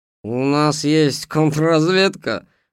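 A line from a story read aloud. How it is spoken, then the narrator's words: Mocking question. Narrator (Russian): насмешливо спросил скрипач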